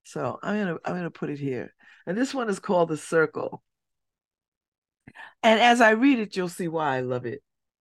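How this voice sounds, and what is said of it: Husky, slightly rough voice. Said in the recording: “I'm not in my best voice. I know this is not my best voice. It's a little huskier than it normally is.”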